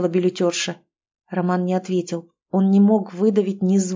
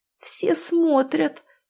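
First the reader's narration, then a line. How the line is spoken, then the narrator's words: Strained, forced out. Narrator (Russian): выдавила Катя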